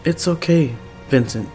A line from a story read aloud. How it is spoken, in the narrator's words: Chase says calmly